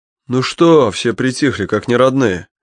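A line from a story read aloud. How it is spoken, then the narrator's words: Loud. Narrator (Russian): громко сказал Боря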